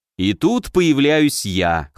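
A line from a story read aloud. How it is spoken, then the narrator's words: Amused snort. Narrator (Russian): хмыкнул я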